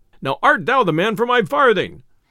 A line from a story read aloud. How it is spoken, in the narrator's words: cried the messenger